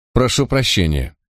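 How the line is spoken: Calm. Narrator (Russian): спокойно проговорил хозяин

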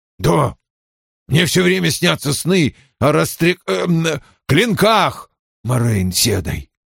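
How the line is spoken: Tense voice. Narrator (Russian): отвечал он напряженным голосом

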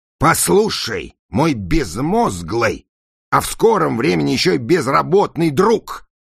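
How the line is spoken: Yelling. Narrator (Russian): заорал Пластик

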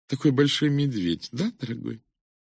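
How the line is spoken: Affected cooing. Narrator (Russian): Миссис Франклин жеманно проворковала

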